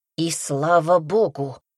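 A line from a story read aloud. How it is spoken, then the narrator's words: Hiss. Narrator (Russian): шипела Валентина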